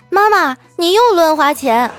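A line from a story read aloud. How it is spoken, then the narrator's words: Loud child's voice. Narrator (Chinese): 这孩子大声地说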